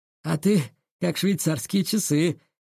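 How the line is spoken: Snorting guard. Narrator (Russian): хмыкнул охранник

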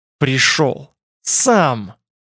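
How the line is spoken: Hissing. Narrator (Russian): прошипел Брос

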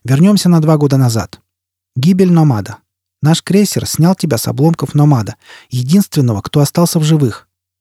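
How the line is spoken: Loud, harsh voice. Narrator (Russian): Шеффилд говорил громким, резким голосом

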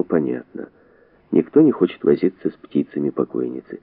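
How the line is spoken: Irritated mutter. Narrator (Russian): он раздраженно пробормотал

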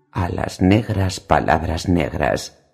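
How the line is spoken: Murmur. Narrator (Spanish): murmuró Ned

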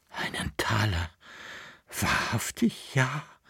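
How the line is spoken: Boy's breathless excited whisper. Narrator (German): hauchte der Knabe, vor Erregung, vor Angst und Freude

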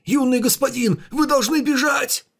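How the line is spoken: Old man's wailing shout. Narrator (Russian): старейшина завопил

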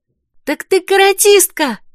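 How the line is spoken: Admiring exclamation. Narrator (Russian): восхищенно воскликнула Вера

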